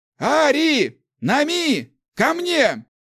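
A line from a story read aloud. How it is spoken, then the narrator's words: Shouting. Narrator (Russian): крикнул Ларс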